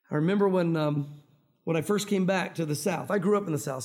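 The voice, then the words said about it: Mild Tennessee Southern accent, fast speech. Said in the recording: “you've got an accent ... I talk too fast for much of an accent, a draw to get in there. But you can still hear that Tennessee accent”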